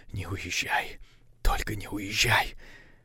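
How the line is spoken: Whisper. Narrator (Russian): шептал

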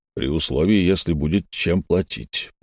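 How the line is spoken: Distrustful mutter. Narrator (Russian): пробормотал недоверчивый Тригумен

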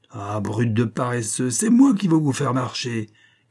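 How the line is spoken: Furious shout. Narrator (French): cria Hall furieux

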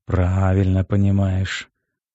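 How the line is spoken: Tired smirking captain. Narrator (Russian): усмехнулся почему-то устало вздохнувший капитан

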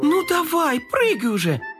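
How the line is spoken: Impatient exclamation. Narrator (Russian): воскликнула Карамелька, теряя терпение

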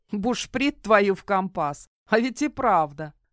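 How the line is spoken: Pirate woman snorting. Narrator (Russian): хмыкнула пиратка

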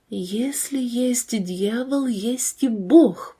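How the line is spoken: Girl whispering. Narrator (Russian): прошептала девушка, вспомнив свои впечатления об встрече с гадалкой

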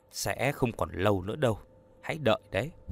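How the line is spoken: Muttered. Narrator (Vietnamese): Trúc Ly lẩm bẩm

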